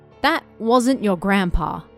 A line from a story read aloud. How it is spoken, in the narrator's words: she said flatly